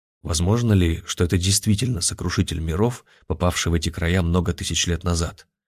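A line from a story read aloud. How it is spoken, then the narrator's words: Quiet speech. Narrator (Russian): тихо проговорил Олег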